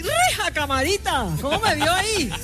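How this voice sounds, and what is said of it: Put-on Llanos regional accent. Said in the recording (Spanish): “A mí se me pegan todos los acentos ... el llano es lindo. Yo lo represento en todas sus formas.”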